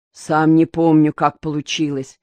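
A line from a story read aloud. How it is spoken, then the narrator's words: Muffled defensive voice. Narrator (Russian): Глухим голосом оправдывался Мазур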